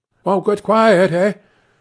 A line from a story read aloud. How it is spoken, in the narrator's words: urged anxiously